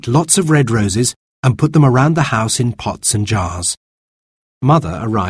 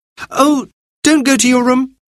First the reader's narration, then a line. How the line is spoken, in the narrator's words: cried Anthea